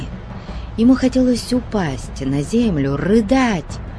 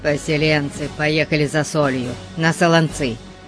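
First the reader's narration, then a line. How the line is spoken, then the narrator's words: Grumbling. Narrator (Russian): проворчал он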